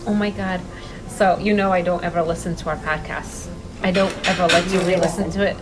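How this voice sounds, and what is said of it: Heavy accent. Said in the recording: “I don't like my accent... it's so heavy”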